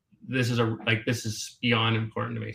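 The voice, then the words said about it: Emotional, choked-up voice. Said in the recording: “now I'm getting emotional. I'm trying not to get emotional... So I apologize for getting emotional.”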